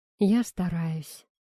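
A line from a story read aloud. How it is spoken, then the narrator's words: Sighing. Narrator (Russian): вздохнул Игорь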